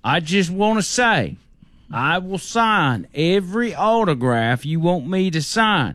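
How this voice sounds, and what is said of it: Good impersonation of a man. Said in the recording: “That's a pretty good impersonation.”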